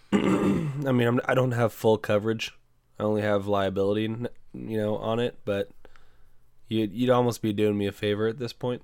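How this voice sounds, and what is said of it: Sick, congested voice. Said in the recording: “I'm dealing with this upper respiratory shit. I'm sure you guys can hear it in my voice just when I talk.”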